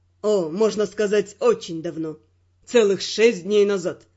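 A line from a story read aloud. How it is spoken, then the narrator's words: Laughing. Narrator (Russian): рассмеялся он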